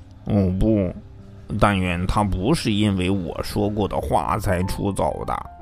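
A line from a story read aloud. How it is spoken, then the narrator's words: Muttered. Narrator (Chinese): 菲达嘟囔了一句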